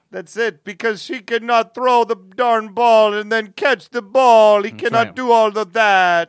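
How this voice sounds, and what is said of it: Imitates another person's voice. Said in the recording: “a good Giselle impression? ... That was great.”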